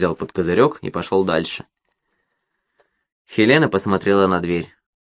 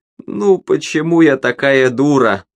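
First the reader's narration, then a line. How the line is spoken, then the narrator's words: Sobbing. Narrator (Russian): всхлипывала она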